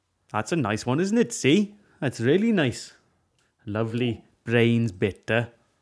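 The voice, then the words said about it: Put-on Welsh accent. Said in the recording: “whenever I try and do a Welsh accent, it always ends in C, as in 2C”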